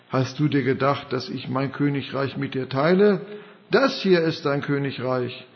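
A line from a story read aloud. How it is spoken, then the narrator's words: Mocking laugh. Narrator (German): Satan, der Vater der Lüge, lachte ihr ins Angesicht und sagte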